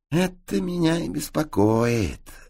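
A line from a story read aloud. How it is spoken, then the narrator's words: Sigh. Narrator (Russian): вздохнул П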